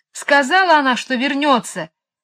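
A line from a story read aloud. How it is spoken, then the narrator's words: Yell. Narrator (Russian): завопил он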